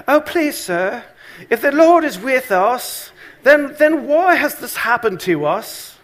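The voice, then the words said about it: Whiny put-on British accent. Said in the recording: “he's not going to be British, but I'm going to use this accent here ... kind of like, oh, whiny”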